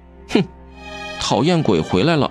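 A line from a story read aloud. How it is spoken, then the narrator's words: Scornful snort. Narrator (Chinese): 阿青哼道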